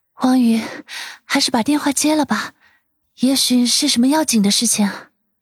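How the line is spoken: Slightly breathless. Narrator (Chinese): 舒心微微喘息的说道

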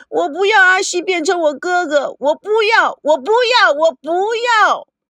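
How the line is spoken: Loud muffled wailing. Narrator (Chinese): 他将头埋在背中，大声的哭嚷

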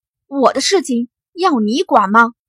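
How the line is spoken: Angry. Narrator (Chinese): 艾琳 怒目

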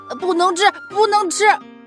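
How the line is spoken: Breathless, panting. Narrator (Chinese): 气喘吁吁的小熊

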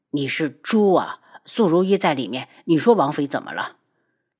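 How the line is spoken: Lowered voice. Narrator (Chinese): 七绝压低声音

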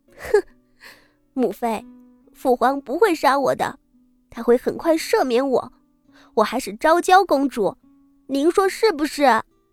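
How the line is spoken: Crying with manic laughter. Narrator (Chinese): 昭娇趴在母亲怀里，似乎抓住了救命稻草，一臂哭着，一臂疯癫大笑两声，道

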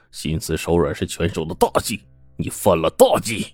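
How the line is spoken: Defiant roar. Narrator (Chinese): 土豹也毫不示弱的冲着郑小民吼道

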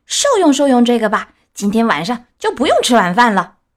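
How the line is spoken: Fierce shout. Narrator (Chinese): 这帮小坏蛋当中最凶的一个叫道

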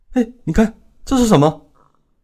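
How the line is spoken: Old woman's startled cry. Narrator (Chinese): 老太太惊叫

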